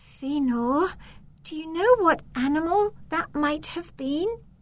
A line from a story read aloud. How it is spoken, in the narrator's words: Elenira asks anxiously